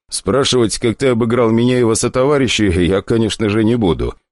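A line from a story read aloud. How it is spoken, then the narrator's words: Chuckling. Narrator (Russian): хохотнул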